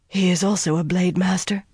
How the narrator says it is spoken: she breathed

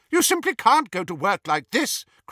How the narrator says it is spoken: cried Hermione

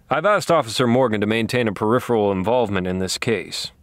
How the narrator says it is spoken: he said

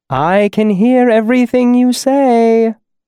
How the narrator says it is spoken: my mother called sweetly from inside

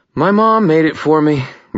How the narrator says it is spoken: Murphy sighed

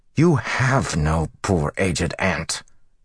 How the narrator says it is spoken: Matt growled

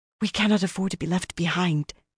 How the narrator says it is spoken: she breathed hurriedly

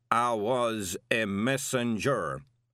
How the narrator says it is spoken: Anghammerad rumbled

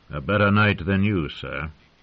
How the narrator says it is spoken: Ostan said coldly

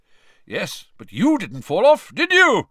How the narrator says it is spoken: roared Amos genially

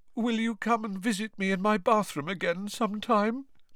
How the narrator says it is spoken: Moaning Myrtle asked mournfully

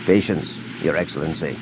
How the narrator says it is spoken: Major Groden Tierce said quietly at his side

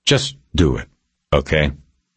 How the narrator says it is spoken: said calmly

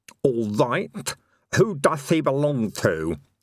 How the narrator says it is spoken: he lisped

